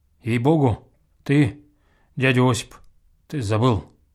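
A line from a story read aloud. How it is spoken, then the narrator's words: Quiet and sad. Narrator (Russian): Мордвин тоже подтвердил, тихонько, печально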